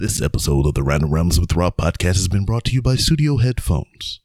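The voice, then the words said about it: Announcer voice. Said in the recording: “that was kind of like my announcer voice.”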